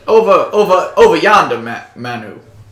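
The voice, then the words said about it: Put-on Southern US accent. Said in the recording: “That's the wrong accent. I gotta go back to being southern.”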